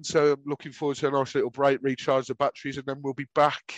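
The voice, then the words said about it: Whiny Brummie accent. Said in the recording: “my whining Brummy accent”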